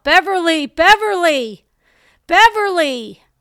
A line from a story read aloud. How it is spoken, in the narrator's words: they called out